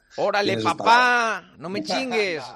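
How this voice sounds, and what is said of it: Put-on Mexican Spanish accent. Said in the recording (Spanish): “van a tener acento mexicano. ... ¿Te hablan así o qué?”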